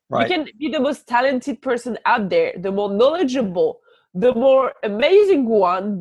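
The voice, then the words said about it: French accent. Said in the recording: “the butt kicker with the French accent”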